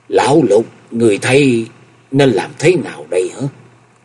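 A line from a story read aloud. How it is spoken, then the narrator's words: Loud trembling voice. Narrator (Vietnamese): Chân Tư Nhân đến giờ mới lấy lại được hồn vía, lớn giọng run run nói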